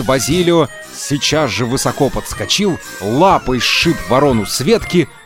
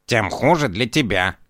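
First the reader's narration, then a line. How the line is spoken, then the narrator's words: Grumbling, cat. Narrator (Russian): проворчал кот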